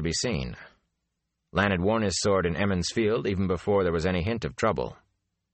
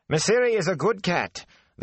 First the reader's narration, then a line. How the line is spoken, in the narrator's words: the cook was saying sharply